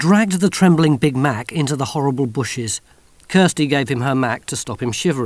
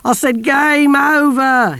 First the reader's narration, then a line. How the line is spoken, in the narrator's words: moaned